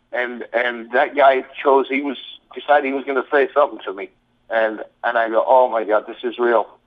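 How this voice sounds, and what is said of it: English accent. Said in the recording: “This my accent ... I've got an English accent.”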